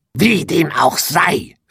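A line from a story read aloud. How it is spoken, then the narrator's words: Witch hissing. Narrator (German): fauchte die Hexe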